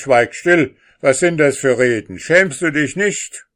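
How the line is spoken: Calling out. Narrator (German): der König rief

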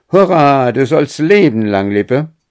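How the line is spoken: Called out. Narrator (German): rief

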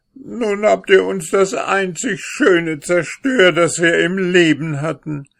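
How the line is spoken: Woman wailing and lamenting. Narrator (German): jammerte und klagte die Räubersfrau

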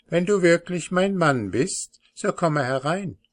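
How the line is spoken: Called from inside. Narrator (German): rief von innen

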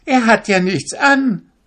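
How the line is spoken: Child calling out. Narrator (German): rief ein zweites Kind

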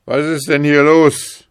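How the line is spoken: Calling down. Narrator (German): rief er herab

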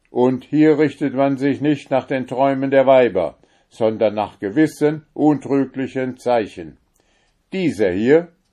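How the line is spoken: Commanding voice. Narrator (German): sprach mit gebietender Stimme

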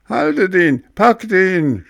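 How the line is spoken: Shouting father. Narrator (German): schrie Vater Seppel

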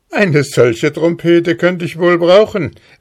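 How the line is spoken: Hussar calling out laughing. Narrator (German): rief lachend der Husar

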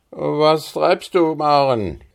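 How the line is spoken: Sleepy call. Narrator (German): rief er mit schläfriger Stimme

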